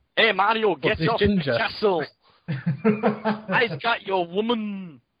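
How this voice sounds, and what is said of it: Put-on northern English accent. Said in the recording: “That's my northern impression.”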